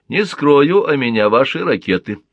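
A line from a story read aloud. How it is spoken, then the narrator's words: Plain. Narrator (Russian): ответил Глушко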